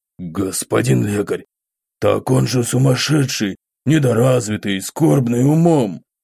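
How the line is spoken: Father's hoarse explaining voice. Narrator (Russian): Принялся пояснять хриплый голос отца

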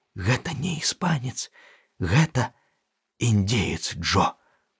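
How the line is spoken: Whisper in ear. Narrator (Belarusian): шапнуў яму на вуха

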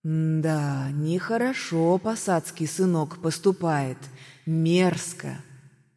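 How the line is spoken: Thoughtful drawl. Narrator (Russian): задумчиво протянул чародей

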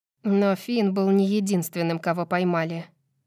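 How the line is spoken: Gloomy remark. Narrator (Russian): мрачно замечает Мира

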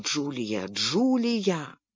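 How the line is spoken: Whisper. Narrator (Russian): прошептал

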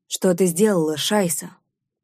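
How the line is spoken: Displeased, through teeth. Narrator (Russian): Процедил он недовольно

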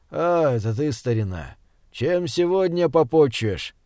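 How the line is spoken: Lazy speech. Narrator (Russian): лениво проговорил Израиль Хаимович

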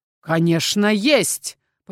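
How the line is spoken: Bark. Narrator (Russian): мужчина рявкнул

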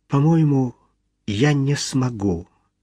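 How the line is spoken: Plain. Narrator (Russian): ответила она

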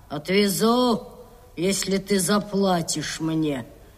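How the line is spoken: Grumbling. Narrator (Russian): Капитан проворчал

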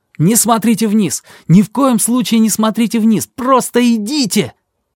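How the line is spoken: Shout. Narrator (Russian): крикнул

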